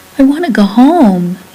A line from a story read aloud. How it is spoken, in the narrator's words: begged